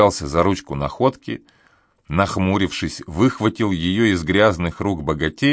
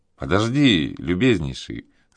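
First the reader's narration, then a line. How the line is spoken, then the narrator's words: Soft. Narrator (Russian): сказал он мягко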